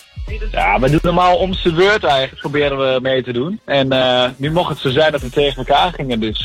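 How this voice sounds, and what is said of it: Regional Dutch accent, Overijssel. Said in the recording (Dutch): “Wat heb jij een heerlijk accent, joh. Kom jij zelf uit Gelderland? ... Nee, uit Overijssel.”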